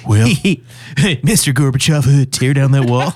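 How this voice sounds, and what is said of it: Imitates another person's voice. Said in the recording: “my Reagan impression. It's just well.”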